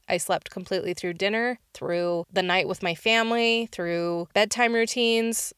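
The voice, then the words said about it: Slightly off, sick-sounding voice. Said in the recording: “if you could tell, my voice is a little off. I'm just getting over a cold”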